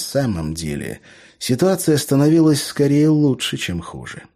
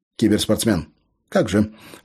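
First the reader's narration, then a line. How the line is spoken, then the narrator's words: Snorting. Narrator (Russian): фыркнул Виктор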